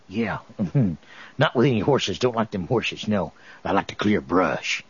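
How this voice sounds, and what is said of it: Put-on regional accent. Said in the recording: “I just use this little accent down here. You fool everybody.”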